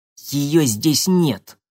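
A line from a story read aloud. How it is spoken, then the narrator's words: Spiteful. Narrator (Russian): злобно проговорила она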